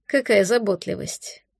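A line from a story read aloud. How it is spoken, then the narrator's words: Mutter. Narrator (Russian): пробормотал Хантер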